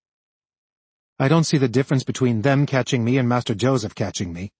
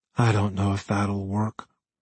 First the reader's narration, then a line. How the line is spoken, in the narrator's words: he muttered